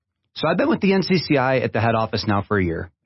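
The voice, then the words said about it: Foreign accent. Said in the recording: “you could probably tell from my accent that I'm a foreigner”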